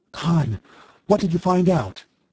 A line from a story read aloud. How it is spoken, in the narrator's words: asked breathlessly